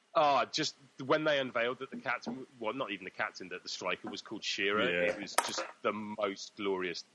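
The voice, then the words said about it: Very posh BBC English accent. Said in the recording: “my incredibly BBC accent”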